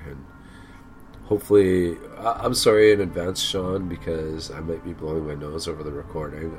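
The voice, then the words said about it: Sick, rough congested voice. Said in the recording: “I'm kind of sick myself ... hear it in my voice. I sound like a bag of junk. I keep coughing like crazy.”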